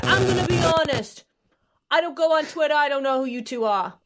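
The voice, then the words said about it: Imitates another person's voice. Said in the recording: “The accent like, was spot on”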